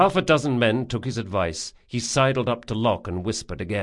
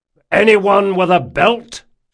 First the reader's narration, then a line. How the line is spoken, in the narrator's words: shouted Jean